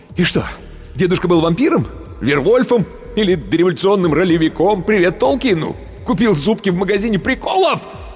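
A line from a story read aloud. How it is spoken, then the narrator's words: Yelling. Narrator (Russian): Он уже орал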